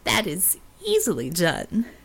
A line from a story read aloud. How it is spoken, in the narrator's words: the Jab chuckled